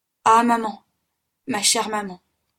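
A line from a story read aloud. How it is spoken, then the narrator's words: Heartfelt uncontrollable cry. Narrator (French): s'écria-t-il, sans pouvoir retenir ce cri parti du plus profond de son cœur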